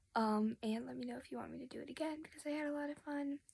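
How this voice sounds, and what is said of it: Tired, weird-sounding voice. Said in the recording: “my voice sounds weird. I'm tired.”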